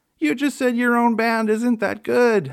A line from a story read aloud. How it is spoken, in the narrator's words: said through tears of laughter